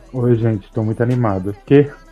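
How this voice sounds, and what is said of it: Imitates another person's voice. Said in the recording (Portuguese): “Tô imitando Darlan hoje.”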